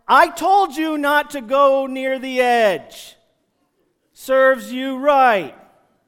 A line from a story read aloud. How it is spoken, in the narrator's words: Did I yell down into the water